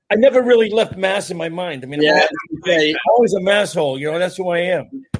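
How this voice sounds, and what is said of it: Massachusetts accent. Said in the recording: “I'm a Mass guy... You go someplace, you got the accent, so you can never escape that”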